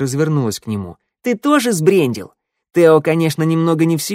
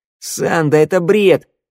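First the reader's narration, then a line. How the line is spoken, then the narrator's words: Snorting. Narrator (Russian): фыркнула шныряла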